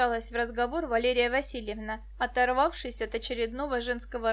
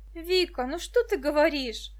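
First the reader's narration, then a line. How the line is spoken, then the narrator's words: Reproachful exclamation. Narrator (Russian): укоризненно воскликнула Муся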